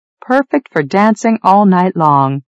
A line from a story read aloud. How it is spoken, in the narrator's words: she laughed